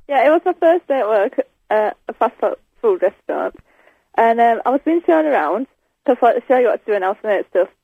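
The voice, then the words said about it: Northern English accent. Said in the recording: “hearing your accent just reminds me of their very, you know, sort of northern tones”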